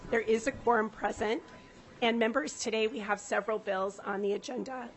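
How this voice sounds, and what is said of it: Rough, unwell-sounding voice. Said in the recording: “sorry for my voice ... I sound terrible”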